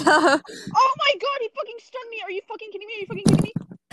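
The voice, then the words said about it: Screaming. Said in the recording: “sorry for screaming”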